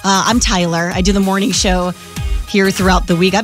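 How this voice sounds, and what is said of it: Slightly out of breath. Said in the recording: “a little out of breath ... That's really why I'm out of breath ... we were dancing for that song”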